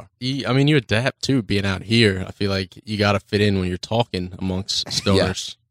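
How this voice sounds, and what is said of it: Baltimore accent. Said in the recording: “When you said the word talking, that's when I heard the Baltimore accent. Yeah. Right there. It's a little walking.”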